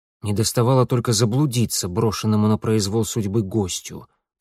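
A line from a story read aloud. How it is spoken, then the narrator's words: Muttering. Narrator (Russian): пробормотал он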